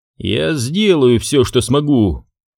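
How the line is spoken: Grimacing, through teeth. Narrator (Russian): процедил Уильям, скривившись

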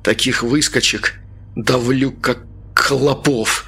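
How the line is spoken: Forced through gritted teeth. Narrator (Russian): выдавил Артем сквозь зубы

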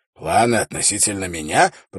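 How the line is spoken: Hoarse rasp. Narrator (Russian): прохрипел он

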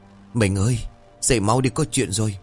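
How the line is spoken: Trembling, hurried. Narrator (Vietnamese): Anh Đắc run rẩy vội đánh thức vợ

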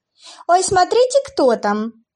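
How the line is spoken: Nervous startled giggle. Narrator (Russian): хихикнула Отелла, хотя было заметно, что она немного испугалась от неожиданности

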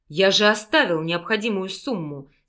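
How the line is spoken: Contemptuous growl. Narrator (Russian): с презрением прорычал мужчина, понимая, что женщина пропила все деньги на мальчика

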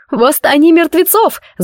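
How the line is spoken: Screamed. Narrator (Russian): завопила я

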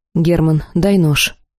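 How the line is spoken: Dry command. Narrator (Russian): сухо приказала я

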